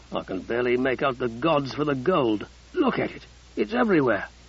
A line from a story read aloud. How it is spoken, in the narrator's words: De Morgan muttered